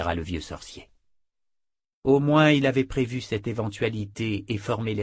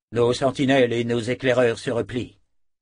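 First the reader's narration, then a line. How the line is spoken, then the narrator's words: Plain. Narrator (French): dit Raibich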